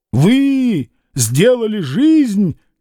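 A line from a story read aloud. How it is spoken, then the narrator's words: Shouted. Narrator (Russian): крикнул он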